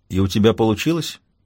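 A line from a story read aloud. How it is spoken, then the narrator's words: Calm question. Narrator (Russian): спокойно спрашивает Цезарь Третий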